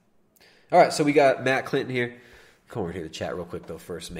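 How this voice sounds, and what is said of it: Usual voice. Nothing is said of it.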